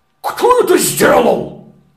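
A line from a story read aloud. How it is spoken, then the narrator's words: Menacing question. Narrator (Russian): грозно спросил Терах у Авраама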